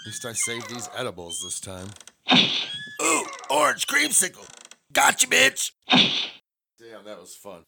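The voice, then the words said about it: Strained, worn-out voice. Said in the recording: “My voice is all fucked up though from uh, playing outfield, talking shit, yelling.”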